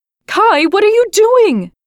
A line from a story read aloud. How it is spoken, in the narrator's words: the little girl cried